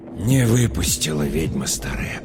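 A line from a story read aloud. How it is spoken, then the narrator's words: Whisper. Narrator (Russian): прошептал Михаил Матвеевич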